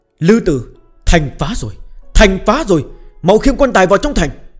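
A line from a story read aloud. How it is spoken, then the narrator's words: Bright, raised voice. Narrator (Vietnamese): hắn ta vẫn tươi cười rạng rỡ, cao giọng nói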